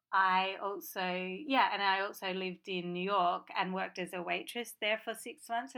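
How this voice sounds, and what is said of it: Atypical Australian accent, rhotic R's. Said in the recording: “I don't have a typical Australian accent... people often think I'm from overseas... I often pronounce the R's in certain words”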